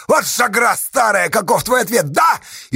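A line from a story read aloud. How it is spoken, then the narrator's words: Shouted. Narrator (Russian): крикнуть Асташа Макарихе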